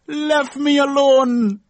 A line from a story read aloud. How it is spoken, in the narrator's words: a woman shouted out